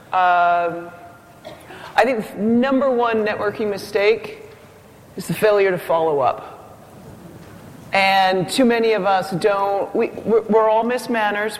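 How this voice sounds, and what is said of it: Canadian accent. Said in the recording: “I'm Canadian, so the accent's going to come out.”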